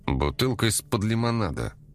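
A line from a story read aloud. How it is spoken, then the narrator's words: Grumbling. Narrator (Russian): проворчал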